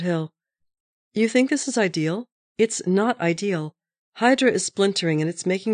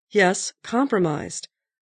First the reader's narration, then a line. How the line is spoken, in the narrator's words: said Hill